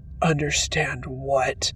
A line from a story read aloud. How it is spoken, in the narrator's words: He growled